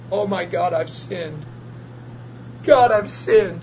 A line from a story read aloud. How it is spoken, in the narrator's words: I start bawling and saying this